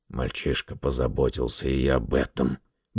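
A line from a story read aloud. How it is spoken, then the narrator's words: Grumbled. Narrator (Russian): буркнул Гаррет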